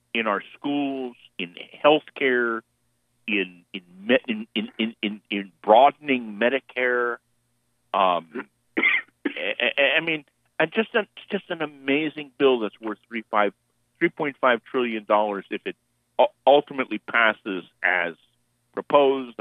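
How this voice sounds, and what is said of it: Excited speaking voice. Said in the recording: “you can hear the excitement in my voice”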